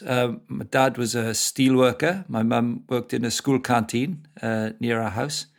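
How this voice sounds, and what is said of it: Welsh accent. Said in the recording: “You've still got that beautiful Welsh accent coming through there.”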